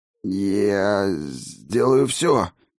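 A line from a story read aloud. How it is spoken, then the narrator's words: Hoarse breathy exhale. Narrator (Russian): хрипло выдохнул он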